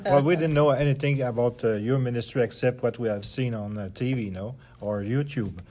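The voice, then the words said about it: French accent. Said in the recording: “everybody loves to hear a good French accent”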